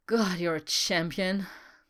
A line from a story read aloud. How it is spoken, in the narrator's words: he said with a satisfied sigh